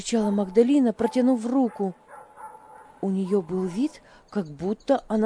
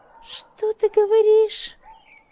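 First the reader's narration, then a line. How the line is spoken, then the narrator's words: Shriek. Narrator (Russian): взвизгнула та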